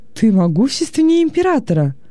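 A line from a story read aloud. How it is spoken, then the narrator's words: Delighted exclamation. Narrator (Russian): с восторгом воскликнул Вениций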